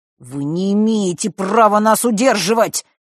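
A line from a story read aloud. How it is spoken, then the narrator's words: Through clenched teeth. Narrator (Russian): процедил Фэш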